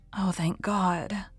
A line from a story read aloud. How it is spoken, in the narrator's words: murmured Mrs